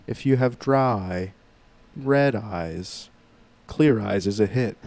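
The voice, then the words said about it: Monotone imitation of another person's voice. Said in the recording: “He's so monotone ... my Ben Stein impression”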